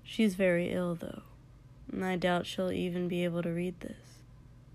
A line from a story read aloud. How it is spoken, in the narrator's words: he added, looking down sadly